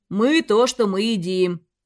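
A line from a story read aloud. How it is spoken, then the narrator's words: Dull monotone. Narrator (Russian): нудным тоном произнес Макс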